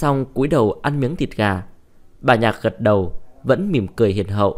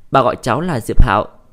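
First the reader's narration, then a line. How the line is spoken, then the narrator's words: Smiling, friendly. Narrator (Vietnamese): Diệp Hạo mỉm cười, hướng bà Nhạc nói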